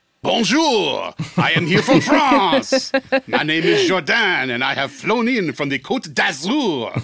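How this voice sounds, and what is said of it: Put-on French accent. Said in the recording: “you got to bust out your French accent”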